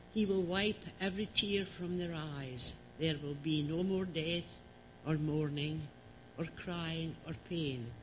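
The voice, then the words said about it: Scottish accent. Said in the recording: “Always sounds better in a Scottish accent”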